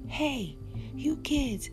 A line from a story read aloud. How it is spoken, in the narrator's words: someone shouted